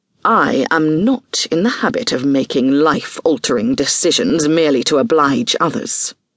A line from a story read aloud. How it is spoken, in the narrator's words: replied coldly